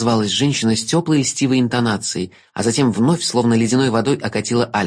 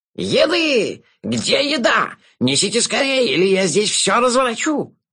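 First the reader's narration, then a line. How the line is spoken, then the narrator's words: Louder yelling from hall. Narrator (Russian): Пуще прежнего завопили из зала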